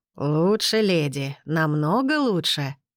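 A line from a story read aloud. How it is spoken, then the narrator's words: Purring. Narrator (Russian): мурлыкнул он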